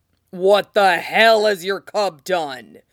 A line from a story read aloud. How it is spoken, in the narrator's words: Robert roared at him